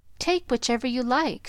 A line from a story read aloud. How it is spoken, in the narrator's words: said eagerly